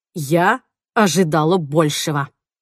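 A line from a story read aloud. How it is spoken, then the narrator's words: Spiteful. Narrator (Russian): злобно ответила Джейн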